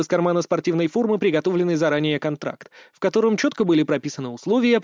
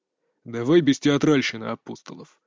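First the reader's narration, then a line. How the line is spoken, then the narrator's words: Grumbled. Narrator (Russian): буркнул тот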